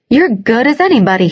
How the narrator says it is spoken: he said, his voice rising a little

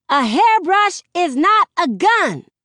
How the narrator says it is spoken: The voice snaps

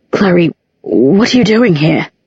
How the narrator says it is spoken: Her voice was muffled against his shirt

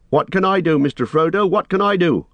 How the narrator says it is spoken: shouted Sam

